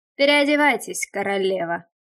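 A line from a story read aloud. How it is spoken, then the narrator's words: Rough, almost sarcastic. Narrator (Russian): Голос его был груб, а обращение произнесено почти язвительно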